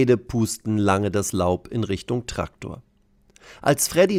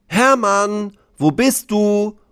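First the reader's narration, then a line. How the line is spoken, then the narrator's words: Calling out. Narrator (German): ruft er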